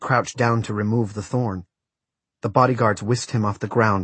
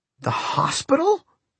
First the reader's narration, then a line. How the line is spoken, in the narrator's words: he gasped